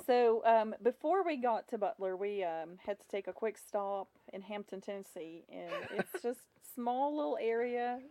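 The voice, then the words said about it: Russian accent with slight southern twang. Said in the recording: “accent that, you know, has some Russian and then it has the little southern twang”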